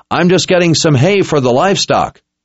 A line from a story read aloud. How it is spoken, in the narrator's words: Richard called out